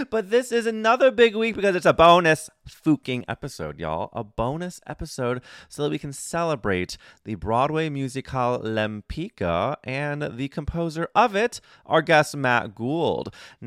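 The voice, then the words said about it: Tired-sounding voice. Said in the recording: “my voice sounds a little tired because it was a big week”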